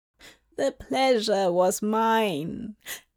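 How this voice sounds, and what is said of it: Wise old witch voice. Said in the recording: “in her wise old witch voice”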